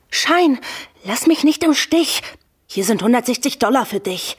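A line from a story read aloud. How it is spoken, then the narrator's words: Captain calling out. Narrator (German): Der Captain ruft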